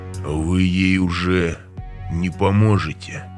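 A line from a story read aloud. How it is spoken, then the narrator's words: Deep bass, smiling. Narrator (Russian): пробасил Филипп и улыбнулся еще шире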